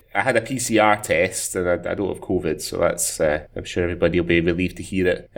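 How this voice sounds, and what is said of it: Slightly husky voice from a cold. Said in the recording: “I'm just coming off the back of a bit of a cold, um, so my voice is a little bit sexier than usual, perhaps.”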